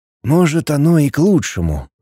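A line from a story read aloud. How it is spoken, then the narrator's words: Sigh. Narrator (Russian): вздохнул Лин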